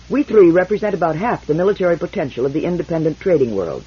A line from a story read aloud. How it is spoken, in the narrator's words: Randu said quickly, almost before he sat down